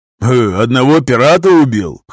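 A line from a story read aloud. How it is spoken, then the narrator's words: Old man's scoffing grunt. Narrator (Russian): хмыкнул старый конфедерат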